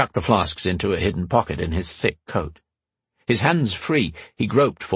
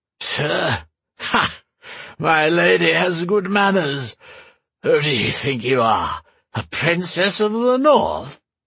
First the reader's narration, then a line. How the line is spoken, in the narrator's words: More cackling